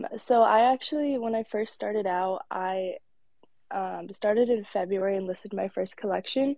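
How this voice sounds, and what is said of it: Voice sounds sick. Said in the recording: “I'm a little bit sick right now, so my voice is”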